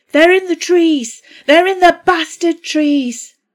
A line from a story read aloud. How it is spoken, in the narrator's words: Danny shouted